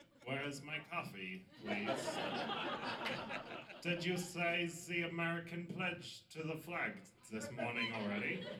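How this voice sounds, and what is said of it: Mock American accent. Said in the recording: “do an impression of your American accent? ... this is ... impression of what Americans sound like to us ... This is what you sound like to us.”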